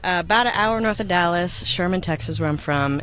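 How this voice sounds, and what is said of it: Noticeable Texas accent. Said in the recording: “I hear the accent.”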